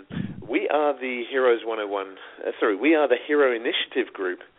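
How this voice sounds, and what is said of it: British accent. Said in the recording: “this guy with a British accent”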